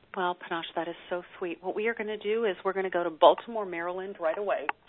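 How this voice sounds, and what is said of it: Voice with a cold. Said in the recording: “I've got a bit of a cold still”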